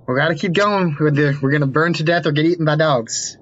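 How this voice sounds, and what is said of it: Character voice in an accent. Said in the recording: “That was the wrong accent.”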